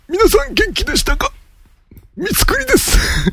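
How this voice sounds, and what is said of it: Imitates another person's voice. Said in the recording (Japanese): “モノマネを披露する... 三つくり教授の真似をしたんです”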